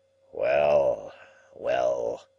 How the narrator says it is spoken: he grumbled

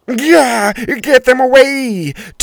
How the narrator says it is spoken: Tony cried

